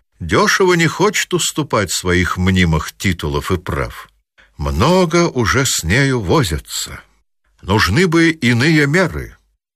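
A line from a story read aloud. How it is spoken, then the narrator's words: Plain. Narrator (Russian): сказал Орлов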